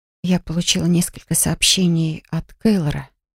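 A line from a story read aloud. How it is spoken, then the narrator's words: Quiet confession. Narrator (Russian): призналась тихо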